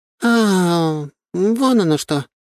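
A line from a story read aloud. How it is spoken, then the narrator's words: Sighing. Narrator (Russian): вздохнула Лазарева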